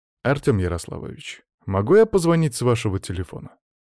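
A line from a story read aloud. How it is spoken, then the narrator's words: Plain. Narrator (Russian): спросил я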